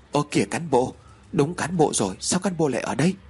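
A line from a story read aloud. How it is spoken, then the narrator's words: Startled, frightened. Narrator (Vietnamese): Mạnh được một phen thót tim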